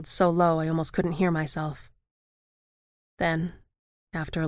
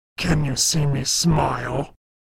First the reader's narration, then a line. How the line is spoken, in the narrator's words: snarled along with a full-body spasm